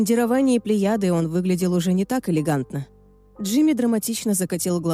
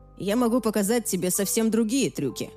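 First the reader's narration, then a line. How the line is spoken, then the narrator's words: Grumbling. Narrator (Russian): проворчал Тоби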